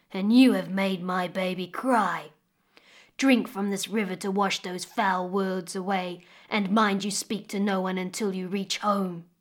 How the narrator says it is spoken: growled the crocodile

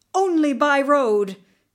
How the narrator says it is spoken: he cried

